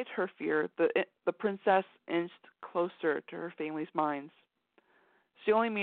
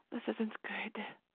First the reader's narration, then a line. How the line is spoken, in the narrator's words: she whispered